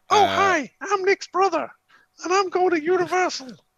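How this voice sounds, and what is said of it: Squeaky cartoonish high voice. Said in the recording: “Has he got a little squeaky voice? ... My brother is Mickey Mouse.”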